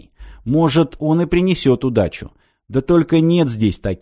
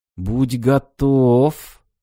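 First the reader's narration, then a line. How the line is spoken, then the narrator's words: Slow hissing half-whisper. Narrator (Russian): Медленно, свистящим полушепотом произнес Григ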